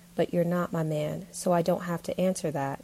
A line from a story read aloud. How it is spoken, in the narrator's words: Audrey said firmly